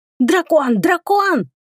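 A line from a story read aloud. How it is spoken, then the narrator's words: Goblins shrieking. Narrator (Russian): завизжали гоблины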